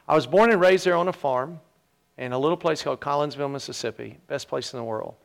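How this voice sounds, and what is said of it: Slight Mississippi Southern twang. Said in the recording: “I come from Mississippi. If you can't tell yet, you will. I have a little bit of a twang. ... He's lost a lot of it.”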